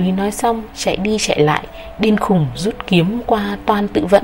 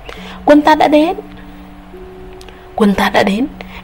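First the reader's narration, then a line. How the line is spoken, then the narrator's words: Joyful voice. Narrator (Vietnamese): Đại úy nhắc lại câu ấy bằng giọng vui mừng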